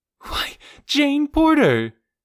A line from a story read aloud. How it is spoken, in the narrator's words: she exclaimed